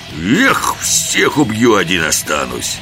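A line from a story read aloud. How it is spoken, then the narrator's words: Menacing. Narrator (Russian): Да так грозно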